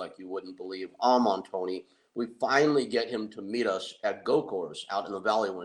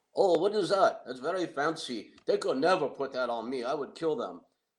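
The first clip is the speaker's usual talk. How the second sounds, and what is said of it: Weak put-on Finnish accent. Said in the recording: “me doing my best to do this bad guy Finnish accent. I'm not good at it, but I'll try.”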